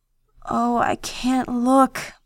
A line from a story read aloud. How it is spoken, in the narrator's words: Bella groaned